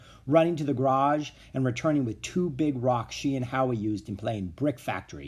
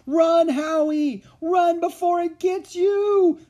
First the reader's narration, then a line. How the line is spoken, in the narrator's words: screamed Ramona